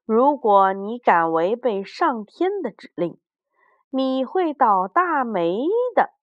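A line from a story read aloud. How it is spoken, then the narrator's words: Loud angry scolding. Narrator (Chinese): 狐狸大声地呵斥道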